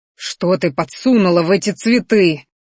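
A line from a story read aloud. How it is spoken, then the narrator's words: Growl. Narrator (Russian): рыкнул Минариан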